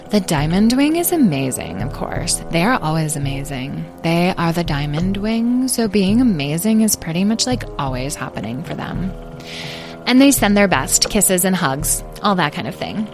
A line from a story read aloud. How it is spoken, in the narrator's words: added Citrine coolly